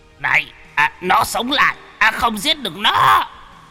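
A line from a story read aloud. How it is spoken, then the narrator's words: Shrieking old man. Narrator (Vietnamese): Lão sắc quỷ rú lên một tiếng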